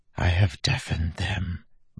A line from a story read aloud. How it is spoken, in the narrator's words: Bleeder whispered